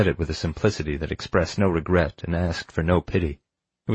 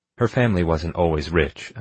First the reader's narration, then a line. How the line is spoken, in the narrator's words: I said